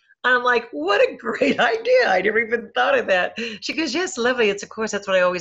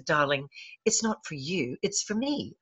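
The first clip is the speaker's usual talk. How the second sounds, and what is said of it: Attempted British accent. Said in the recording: “in her little British accent, which I cannot do justice to”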